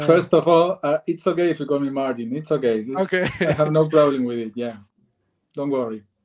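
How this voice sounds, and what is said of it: Speaks with an accent. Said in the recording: “I already love the accent”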